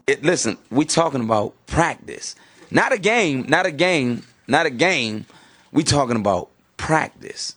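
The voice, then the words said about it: Allen Iverson impression. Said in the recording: “my Allen Iverson impression”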